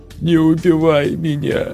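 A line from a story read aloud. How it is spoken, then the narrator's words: Woman's plaintive moan. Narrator (Russian): жалобно простонала женщина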